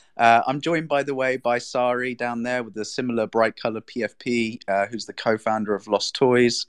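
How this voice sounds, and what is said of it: Monotone English accent. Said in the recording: “my boring English monotone accent ... more Brits here”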